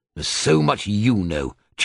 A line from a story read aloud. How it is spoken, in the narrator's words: Charon snapped